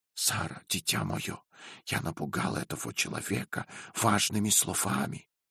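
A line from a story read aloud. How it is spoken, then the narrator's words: Whisper. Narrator (Russian): прошептал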